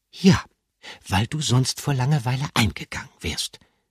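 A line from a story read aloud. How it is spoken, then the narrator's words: Gentle. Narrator (German): sagte Gruyère sanft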